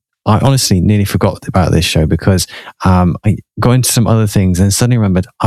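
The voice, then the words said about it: Slightly out of breath. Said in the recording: “That's why I'm a little bit out of breath.”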